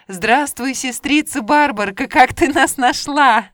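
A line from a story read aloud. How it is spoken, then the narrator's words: Joyful shouting. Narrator (Russian): Семь белых селезней ... радостно закричали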